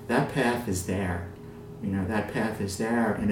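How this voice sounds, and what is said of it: Usual voice. Nothing is said of it.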